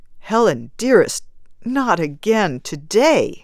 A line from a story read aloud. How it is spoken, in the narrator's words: begged